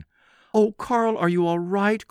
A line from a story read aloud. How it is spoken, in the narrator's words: cried Gertie